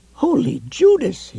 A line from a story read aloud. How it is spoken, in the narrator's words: cried